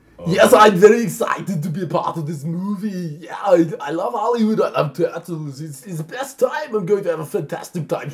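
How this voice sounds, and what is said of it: Impression of Arnold. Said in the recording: “stop doing an impression of Arnold's”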